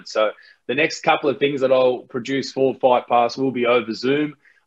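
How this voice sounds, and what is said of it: Australian accent. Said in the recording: “you got that great Australian accent”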